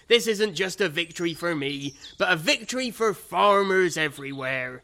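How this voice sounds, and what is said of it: Put-on West Country farmer accent. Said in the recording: “this accent truly does belong to farmers ... Including the ones who aren't even from the West Country, who obviously don't speak anything like this.”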